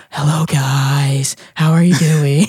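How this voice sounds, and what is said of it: Imitates a singer's voice. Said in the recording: “in most of my music, I sing like Owl City”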